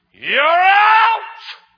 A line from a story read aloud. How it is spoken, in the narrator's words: that umpire screams at me